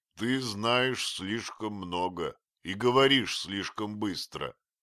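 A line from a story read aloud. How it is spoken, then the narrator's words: Grumbled. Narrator (Russian): проворчал совершенно обманутый шпион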